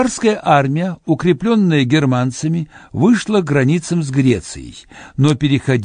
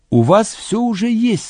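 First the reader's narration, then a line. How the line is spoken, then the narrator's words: Plain. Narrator (Russian): сказал я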